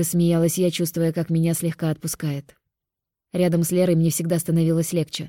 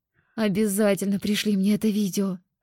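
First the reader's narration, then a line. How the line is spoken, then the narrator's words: Tearful groan. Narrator (Russian): простонала я, вытирая выступившие слезы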